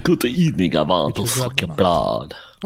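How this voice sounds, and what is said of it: Bad vampire voice impression. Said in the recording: “That is the worst vampire sound or impersonation I've ever heard.”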